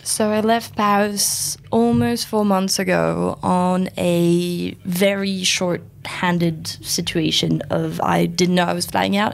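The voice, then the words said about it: French accent. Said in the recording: “you sound French ... people would assume you're French just by your voice ... the rest sounds French”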